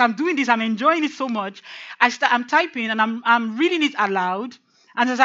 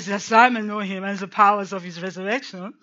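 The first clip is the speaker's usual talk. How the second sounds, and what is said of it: Put-on French accent. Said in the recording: “I started using the French accent... So I'm reading what he's writing with a French accent... So I'm speaking it with this French accent”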